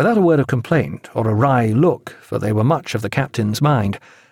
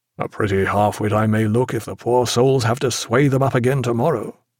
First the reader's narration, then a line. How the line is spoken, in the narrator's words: said Jack in a low voice